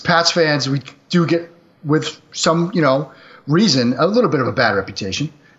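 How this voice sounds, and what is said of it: Boston accent. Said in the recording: “The Boston accent, I have never outgrown it.”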